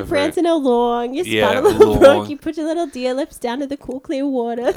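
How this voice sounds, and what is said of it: Imitates another person's voice. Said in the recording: “It's a pretty good impression, though.”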